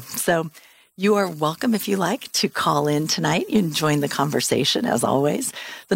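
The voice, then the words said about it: Strained, unusual-sounding voice. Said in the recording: “My voice is a little funny tonight. I have really bad asthma and it's gone crazy”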